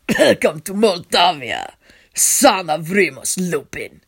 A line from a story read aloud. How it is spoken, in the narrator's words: he says in his cold, rough voice